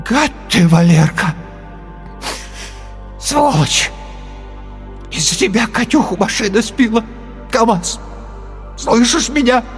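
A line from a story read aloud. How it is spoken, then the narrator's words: Hoarse tearful voice. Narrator (Russian): охрипший, зареванный голос сказал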